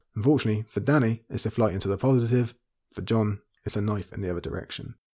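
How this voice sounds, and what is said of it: Strained, worn-out voice. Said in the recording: “as you can hear, my voice is nearly on its last feet”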